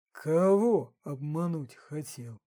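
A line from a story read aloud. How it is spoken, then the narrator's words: Bewildered drawl. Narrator (Russian): растерянно протянул, спросил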